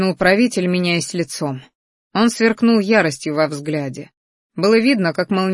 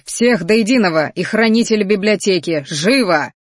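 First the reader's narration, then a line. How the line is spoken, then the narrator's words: Growl. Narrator (Russian): Рыкнул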